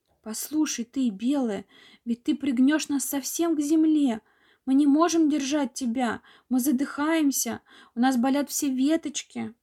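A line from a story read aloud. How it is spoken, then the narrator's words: Trees moaning. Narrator (Russian): стонали деревья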